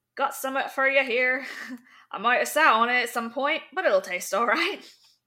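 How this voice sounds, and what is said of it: Attempted vague Scottish accent. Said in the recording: “I can't do his like Scottish, vague Scottish accent.”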